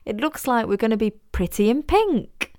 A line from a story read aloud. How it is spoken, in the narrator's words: she said, laughing